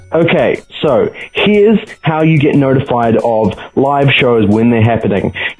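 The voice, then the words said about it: Speaks with a noticeable accent. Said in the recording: “if you can't understand my accent”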